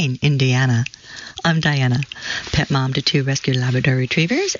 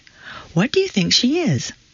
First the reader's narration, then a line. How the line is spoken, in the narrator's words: his wife sweetly asked